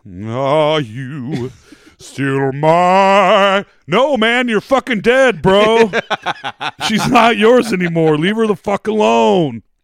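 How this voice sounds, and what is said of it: Impression of a generic dude. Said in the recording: “That was my dude impression.”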